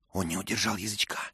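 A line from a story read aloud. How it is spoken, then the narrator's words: Whispered. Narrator (Russian): шепнул Мэтчем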